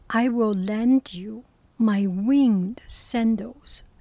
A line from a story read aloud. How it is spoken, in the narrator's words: said Hermes